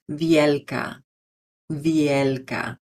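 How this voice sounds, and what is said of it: Spanish-accented pronunciation of a name. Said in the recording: “use a Spanish accent.”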